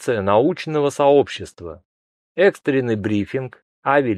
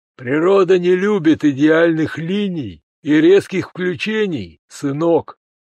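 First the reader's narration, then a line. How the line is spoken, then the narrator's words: Gloomy reply, grey-haired man. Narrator (Russian): мрачно ответил седовласый специалист по динамике полетов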